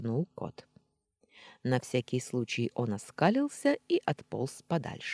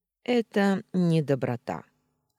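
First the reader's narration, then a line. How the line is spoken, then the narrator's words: Calm explanation. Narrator (Russian): спокойно пояснил Устин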